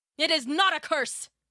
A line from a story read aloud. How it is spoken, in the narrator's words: King Midas cried and pushed his daughter angrily away from him